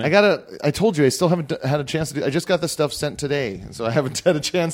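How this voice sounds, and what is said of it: Hoarse, worn-out voice. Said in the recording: “my voice I was at a fucking wedding last night my voice ... my voice has been gone from talking over music all night”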